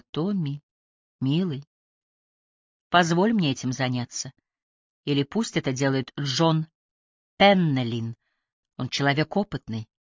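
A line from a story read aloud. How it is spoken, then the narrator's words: Gentle, affectionate. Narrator (Russian): Мать ласково сказала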